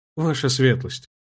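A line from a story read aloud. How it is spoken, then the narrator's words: Quiet address. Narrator (Russian): Негромко обратился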